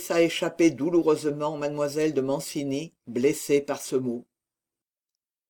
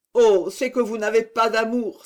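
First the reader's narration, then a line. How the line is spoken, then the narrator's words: Exclaiming. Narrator (French): s'écria Marie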